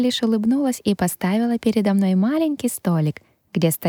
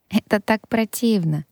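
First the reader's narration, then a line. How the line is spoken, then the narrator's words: Hopeless sigh. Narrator (Russian): Вздохнула от безысходности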